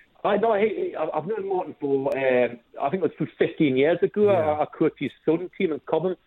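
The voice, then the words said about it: Slight Geordie accent lilt. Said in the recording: “I can get in a hint of a Geordie accent there ... It's just a slight lilt”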